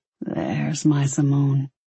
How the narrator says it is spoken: he murmured

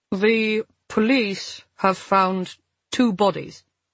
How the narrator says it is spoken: the embassy official said at last, his voice awkward and formal

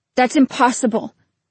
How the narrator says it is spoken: Selim's voice leapt almost to a shout

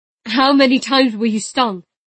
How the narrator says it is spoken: He shouted

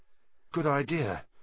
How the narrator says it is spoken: said Ron nervously

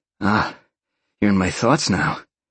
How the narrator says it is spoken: Sean chuckled

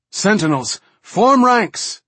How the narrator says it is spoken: Danaya cried out

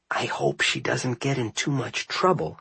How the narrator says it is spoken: I whispered

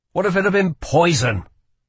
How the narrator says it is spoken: he snapped

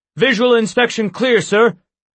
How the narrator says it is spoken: he barked to the other guard

